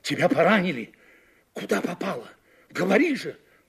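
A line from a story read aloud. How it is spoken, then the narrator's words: Hoarse question. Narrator (Russian): хрипло спросил Григорий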